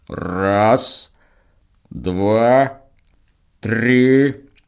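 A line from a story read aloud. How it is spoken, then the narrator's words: Low bass counting. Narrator (Russian): считает Михайло низким басом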